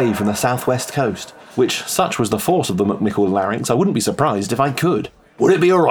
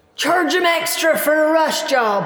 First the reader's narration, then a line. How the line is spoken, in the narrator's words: her voice shouting